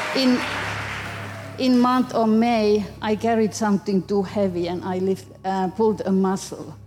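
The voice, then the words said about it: Finnish accent. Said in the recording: “Finland ... I knew that wasn't a Wesley Chapel accent.”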